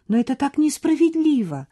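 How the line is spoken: Defensive exclamation. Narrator (Russian): воскликнула она, сразу кинувшись на защиту своей собаки

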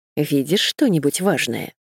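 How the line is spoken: Plain. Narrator (Russian): спросила Сьюзен

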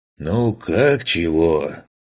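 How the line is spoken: Sighing. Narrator (Russian): Вздохнул Лысый

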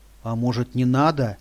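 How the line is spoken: Frightened whisper. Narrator (Russian): испуганно прошептала она

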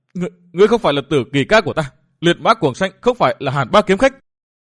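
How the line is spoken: Loud woman's shout. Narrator (Vietnamese): Bà hét lớn

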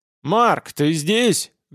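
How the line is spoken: Loud bark. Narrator (Russian): гаркнул Гел

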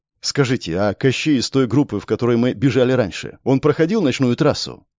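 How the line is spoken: Plain question. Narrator (Russian): спросил Степан

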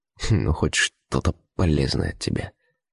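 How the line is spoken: Quiet words through teeth. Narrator (Russian): тихо процедил сквозь зубы

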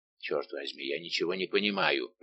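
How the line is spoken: Muttering. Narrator (Russian): пробормотал Портос

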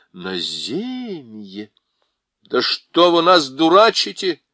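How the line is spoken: Strained exclamation. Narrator (Russian): воскликнул Юстас, с трудом боровшийся с колдовским запахом и звуками музыки

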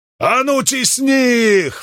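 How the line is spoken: Roaring. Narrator (Russian): взревел он

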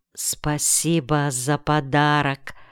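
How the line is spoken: Quiet. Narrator (Russian): тихо сказал он

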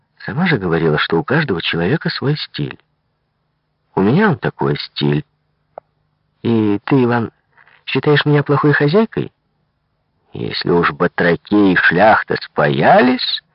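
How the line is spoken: Gentle, affectionate. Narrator (Russian): Таисия Михайловна ласково сказала дочери

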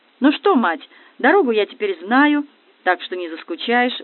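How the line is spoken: Cheerful. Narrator (Russian): бодро говорил Юра Коротков

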